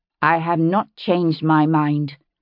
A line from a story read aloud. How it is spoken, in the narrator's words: she said, her voice cold as the night